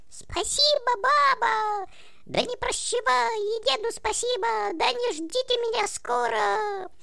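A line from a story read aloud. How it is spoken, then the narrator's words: Shrill, thin shout. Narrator (Russian): как закричит своим тоненьким голоском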